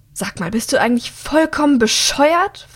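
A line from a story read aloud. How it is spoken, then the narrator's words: Hissing, angry. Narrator (German): faucht sie ihn an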